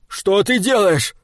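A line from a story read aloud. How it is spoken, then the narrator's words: Yelled. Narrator (Russian): завопил он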